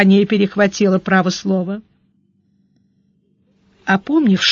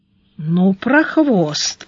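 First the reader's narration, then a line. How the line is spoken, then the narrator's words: Drawled, admiring. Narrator (Russian): протянул Гарайло с некоторым даже восхищением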